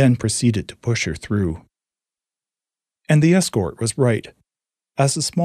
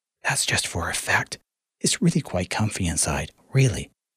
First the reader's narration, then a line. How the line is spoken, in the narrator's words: one of her escorts whispered in her ear